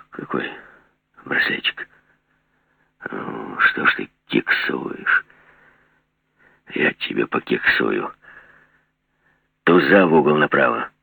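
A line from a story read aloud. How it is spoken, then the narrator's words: Casual explanation. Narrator (Russian): заказал Жиглов, пояснил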